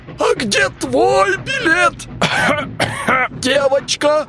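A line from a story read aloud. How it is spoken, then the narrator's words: Shouted in chorus. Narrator (Russian): все хором закричали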